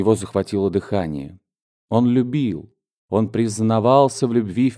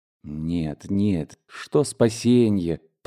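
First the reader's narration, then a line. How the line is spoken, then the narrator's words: Mutter. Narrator (Russian): пробормотал он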